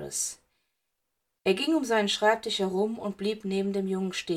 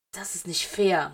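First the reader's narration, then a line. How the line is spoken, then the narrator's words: Murmur. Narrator (German): murmelte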